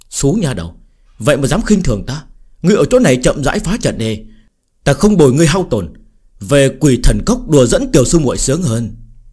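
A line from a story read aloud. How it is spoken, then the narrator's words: Loud call, then low muttering. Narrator (Vietnamese): Hầu Quỷ Môn lớn tiếng hô một câu, sau đó thấp giọng lẩm bẩm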